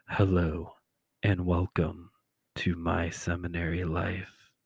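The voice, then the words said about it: Soft ASMR-style voice. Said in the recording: “ASMR voice”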